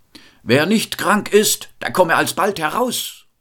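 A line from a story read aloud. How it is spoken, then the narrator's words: Loud call. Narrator (German): rief mit lauter Stimme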